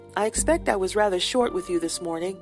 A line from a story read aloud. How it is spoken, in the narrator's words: she said